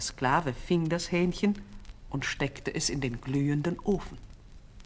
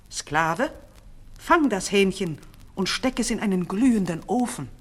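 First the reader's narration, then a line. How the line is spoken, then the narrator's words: Angry command. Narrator (German): Der Sultan wurde noch böser und rief einen anderen Sklaven und befahl ihm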